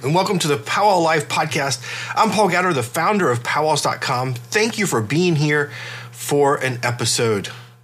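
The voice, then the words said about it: Congested, stuffy voice. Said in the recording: “my voice sounds a little weird today and I crack or cough ... I'm still a little stuffy and and uh, got some you know all the congestion going on”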